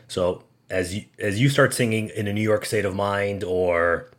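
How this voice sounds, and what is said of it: Usual voice. Nothing is said of it.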